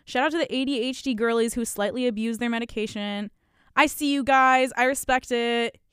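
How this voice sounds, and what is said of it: Throaty, sick-sounding voice. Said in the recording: “my voice sounds like weirdly like throaty and sick ... me recovering from the engorged tonsils”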